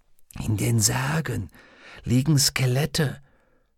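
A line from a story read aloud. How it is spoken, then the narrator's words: Whisper. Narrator (German): flüsterte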